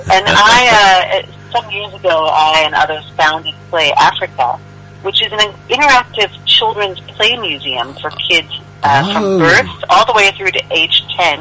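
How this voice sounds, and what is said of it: American accent. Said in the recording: “you might be able to tell from my accent, I wasn't born and raised in South Africa. I'm originally from the United States”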